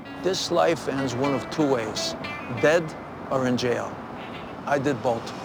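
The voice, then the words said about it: Vinnie Barbarino-style accent. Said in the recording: “he's in full Vinnie Barbarino mode ... he dusted off that accent good”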